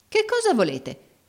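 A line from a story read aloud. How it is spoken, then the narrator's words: Exclaimed. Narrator (Italian): esclamò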